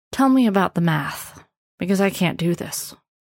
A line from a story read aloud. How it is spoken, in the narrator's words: With a deep sigh, Levon said